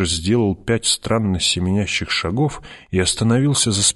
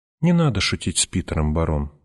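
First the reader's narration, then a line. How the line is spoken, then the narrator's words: Quiet. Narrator (Russian): негромко сказал Питер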